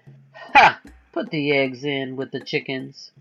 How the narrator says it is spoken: The captain laughed and said

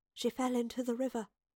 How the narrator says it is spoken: the professor whispered

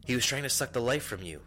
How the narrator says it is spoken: Lorik cried out

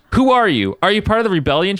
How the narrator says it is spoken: shouted

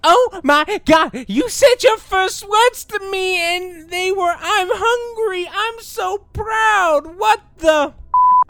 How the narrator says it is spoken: I shriek, crying

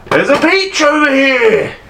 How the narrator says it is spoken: he shouts out

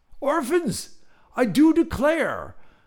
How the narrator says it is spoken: a British voice thundered

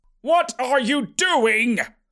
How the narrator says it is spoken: Uncle Horbert yelled

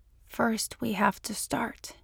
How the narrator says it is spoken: he whispered

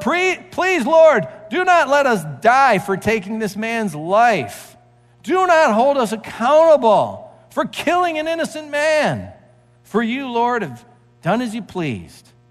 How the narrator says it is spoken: they cried out to the Lord

